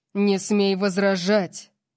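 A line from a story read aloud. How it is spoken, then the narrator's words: Growling. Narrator (Russian): Прорычал он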